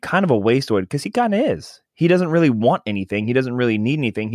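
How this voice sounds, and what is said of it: Usual voice. Nothing is said of it.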